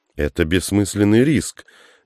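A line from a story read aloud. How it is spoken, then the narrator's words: Exclaiming. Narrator (Russian): воскликнул Кашин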